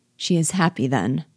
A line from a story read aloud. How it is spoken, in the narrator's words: said her father dryly